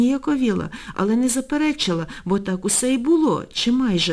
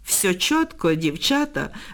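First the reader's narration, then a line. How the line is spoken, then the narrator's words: Boy laughing. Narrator (Ukrainian): розсміявся хлопець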